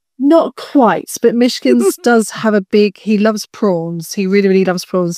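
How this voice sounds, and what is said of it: Lovely British English accent. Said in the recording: “your lovely accent compared to my, I don't know, my Yankee one”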